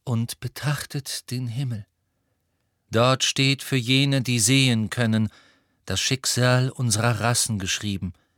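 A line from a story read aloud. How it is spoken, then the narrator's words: Calm voice. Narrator (German): sagte Firenze mit seiner ruhigen Stimme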